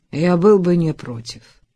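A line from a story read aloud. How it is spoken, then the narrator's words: Gloomy reply. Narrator (Russian): мрачно ответил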